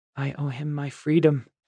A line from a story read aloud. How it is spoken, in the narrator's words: Nor said quietly